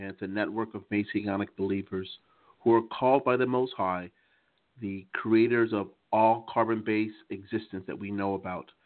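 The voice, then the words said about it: American accent. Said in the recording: “in my American accent”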